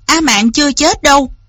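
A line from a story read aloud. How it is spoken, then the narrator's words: Loud, bitter. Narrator (Vietnamese): Lý Văn Tú trong lòng càng thêm chua xót, lớn tiếng nói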